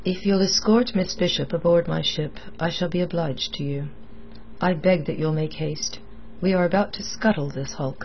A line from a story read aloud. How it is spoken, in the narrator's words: It was in a level voice that the captain added